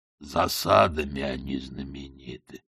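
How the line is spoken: Mutter. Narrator (Russian): пробормотал Детрит

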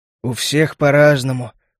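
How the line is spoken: Tired. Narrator (Russian): устало ответил он

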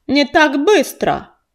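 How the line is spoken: Harsh bark. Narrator (Russian): рявкнул незнакомец

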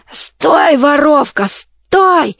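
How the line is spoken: Hoarse roaring from behind. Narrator (Russian): ревел сзади хриплый голос

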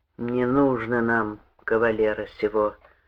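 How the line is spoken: Gloomy reply. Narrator (Russian): ответил мрачно

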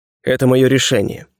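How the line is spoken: Cold, curt. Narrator (Russian): холодно отрезал я

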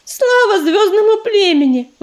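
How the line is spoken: Exclaimed. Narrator (Russian): воскликнула она

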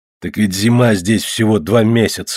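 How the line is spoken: Grumbling. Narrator (Russian): ворчал Птолемей

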